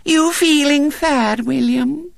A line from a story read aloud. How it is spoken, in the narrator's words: she said sweetly